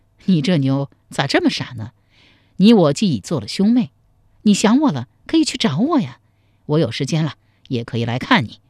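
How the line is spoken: Laughing reply. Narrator (Chinese): 赵匡胤笑着回答说

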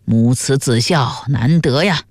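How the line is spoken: Admiring sigh. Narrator (Chinese): 旁边的客人羡叹道

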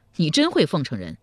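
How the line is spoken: Hearty laughter. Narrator (Chinese): 赵匡胤哈哈大笑道

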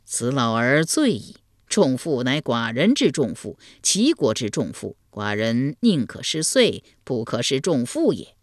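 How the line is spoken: Delighted laughing speech. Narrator (Chinese): 齐桓公闻言大乐，笑对陈蔡朱三军说道

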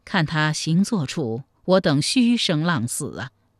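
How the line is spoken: Sighing. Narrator (Chinese): 太平公主看过后也叹息道

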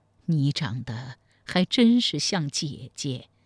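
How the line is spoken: Moved, sighing. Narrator (Chinese): 武则天也是深受触动，长叹一声，才说

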